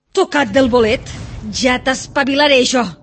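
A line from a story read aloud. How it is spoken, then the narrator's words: Shouted angrily. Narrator (Catalan): cridava la dona així que el va veure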